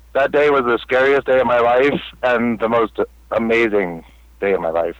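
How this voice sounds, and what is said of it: Choked-up, emotional voice. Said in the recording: “I'm still getting choked up here. Excuse me.”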